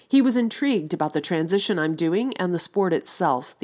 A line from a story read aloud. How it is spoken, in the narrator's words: said